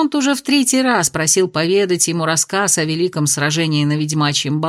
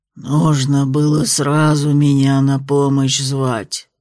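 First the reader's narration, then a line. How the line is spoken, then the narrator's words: Tree spirit grumbling. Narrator (Russian): проворчал древесный дух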